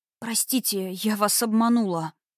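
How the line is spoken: Mumbled. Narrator (Russian): пробормотала

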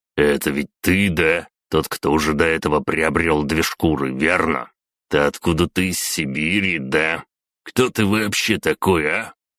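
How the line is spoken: Scoffing grunt. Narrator (Russian): Я хмыкнул

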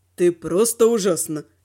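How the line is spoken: Purring. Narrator (Russian): Мурлыкнул он

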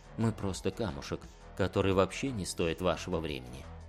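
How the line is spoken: Muttered. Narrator (Russian): пробормотал Ригантис

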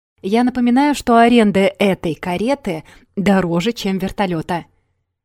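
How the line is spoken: Shout. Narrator (Russian): крикнул Вадик из лимузина

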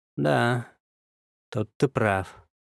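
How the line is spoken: Gloomy agreement. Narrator (Russian): мрачно согласился я

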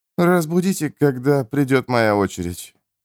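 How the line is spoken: Drowsy mumble. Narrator (Russian): Эрвин пробормотал сквозь полудрему

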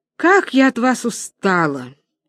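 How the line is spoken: Sharp. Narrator (Russian): Чугуев резко

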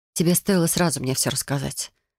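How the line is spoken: Quiet remark. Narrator (Russian): тихо заметила я

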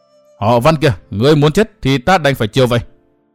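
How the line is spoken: Roaring furiously. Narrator (Vietnamese): Phụ nhân áo xanh gầm thét nói

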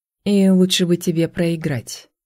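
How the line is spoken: Grim. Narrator (Russian): произнесла Лейла мрачно

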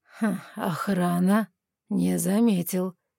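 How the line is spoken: Ironic snort, visitor. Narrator (Russian): иронично хмыкнул визитер

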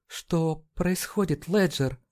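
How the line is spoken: Quiet question. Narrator (Russian): тихо спросила

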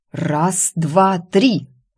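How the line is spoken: Growled. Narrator (Russian): рыкнула я

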